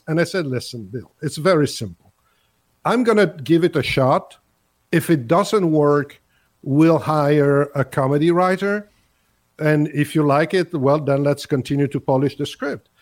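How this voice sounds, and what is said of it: Speaks English with a foreign accent. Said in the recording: “with my accent”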